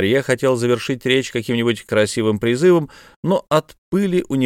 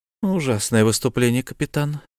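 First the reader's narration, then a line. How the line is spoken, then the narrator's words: Whisper. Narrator (Russian): шепнула у него за спиной Итиэль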